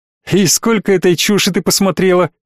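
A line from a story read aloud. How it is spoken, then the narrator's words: Laughing. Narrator (Russian): засмеялся Джек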